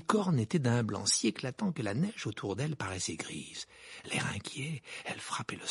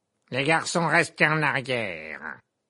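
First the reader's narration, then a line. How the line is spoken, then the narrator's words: Barked. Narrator (French): aboya le professeur Gobe-Planche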